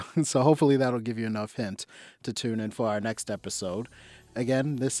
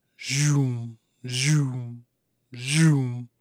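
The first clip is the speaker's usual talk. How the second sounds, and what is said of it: Imitates a zooming sound. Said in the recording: “my best impersonation of of that sound”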